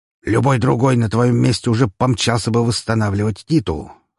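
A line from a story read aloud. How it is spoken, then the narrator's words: Scoffing snort. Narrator (Russian): хмыкнул Распутин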